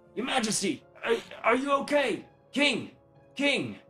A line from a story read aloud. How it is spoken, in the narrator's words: you hear him yelling out